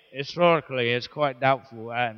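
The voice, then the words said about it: Poor put-on English accent. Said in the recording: “in an English accent ... My English accent is terrible”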